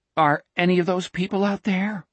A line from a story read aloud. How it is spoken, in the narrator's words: Richard asked nervously